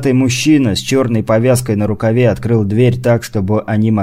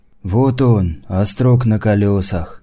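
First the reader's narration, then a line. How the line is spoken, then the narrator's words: Muttered. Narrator (Russian): пробормотал Ашот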